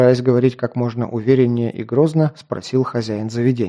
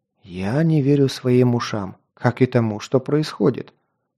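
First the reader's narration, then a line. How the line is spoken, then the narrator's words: Whisper from darkness. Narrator (Russian): прошептал кто-то из темноты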